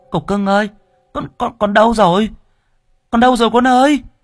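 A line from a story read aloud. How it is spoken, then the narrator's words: Old woman crying out. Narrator (Vietnamese): Mụ kêu lên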